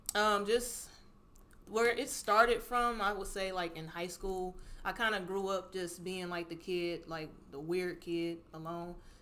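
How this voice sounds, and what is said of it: Slight Southern country accent. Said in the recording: “they grew up in Mississippi or just in like the southern areas. So that's where I get my little. If you hear the accent, little countryness”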